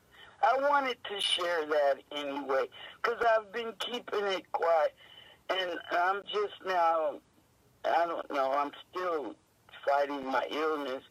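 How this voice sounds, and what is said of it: Weak, strained, mostly lost voice. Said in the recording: “My voice is gone.”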